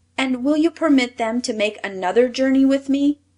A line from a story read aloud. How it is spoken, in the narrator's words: asked Claus eagerly